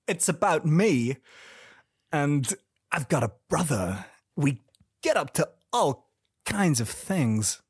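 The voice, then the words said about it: Christopher Walken impression. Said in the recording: “I'll do my impression of each of them ... The problem with Christopher Walken impression is it does eat into the runtime”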